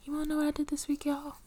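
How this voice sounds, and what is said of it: Whispering. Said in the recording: “I'm whispering”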